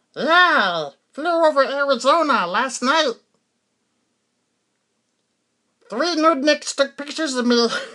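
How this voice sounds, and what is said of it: Alien character voice. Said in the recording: “my alien impression. Is that bad? Yeah, it's bad.”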